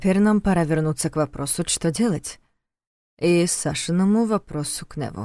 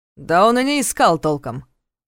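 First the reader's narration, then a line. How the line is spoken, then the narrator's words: Grumbling. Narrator (Russian): проворчал Ярослав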